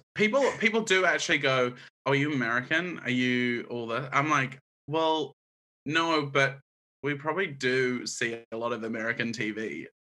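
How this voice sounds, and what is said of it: Mellow hybrid New Zealand accent. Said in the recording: “It's actually a very mellow accent, I will say that... it's not a harsh New Zealand accent... I've got a hybrid”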